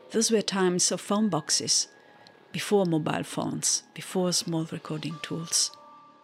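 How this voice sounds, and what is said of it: Strong foreign accent in English. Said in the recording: “Have you registered my strong accent?”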